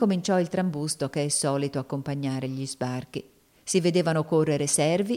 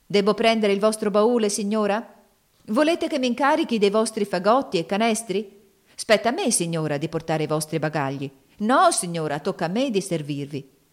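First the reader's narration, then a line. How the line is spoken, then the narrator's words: Cries from all sides. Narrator (Italian): Tali grida assalirono Miss Ofelia da tutte le parti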